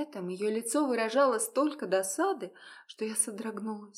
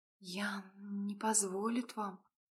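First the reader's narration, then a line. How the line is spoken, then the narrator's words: Horrified whisper. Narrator (Russian): прошептала я в тихом ужасе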